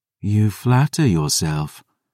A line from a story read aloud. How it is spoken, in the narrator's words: Selene sighed